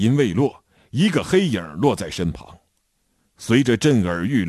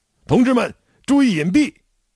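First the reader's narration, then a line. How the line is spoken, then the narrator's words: Loud shout. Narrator (Chinese): 我高喊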